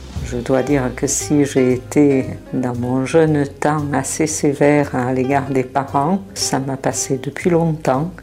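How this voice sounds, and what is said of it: Southern French accent. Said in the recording (French): “son accent du Sud est délicieux”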